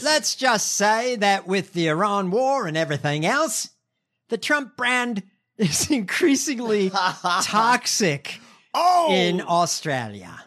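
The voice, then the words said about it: Bad put-on Australian accent. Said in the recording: “In my shitty Australian accent.”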